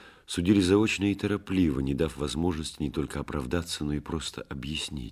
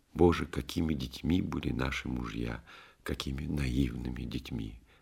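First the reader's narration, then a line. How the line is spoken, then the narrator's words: Tearful whisper. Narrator (Russian): его жена Нина со слезами шептала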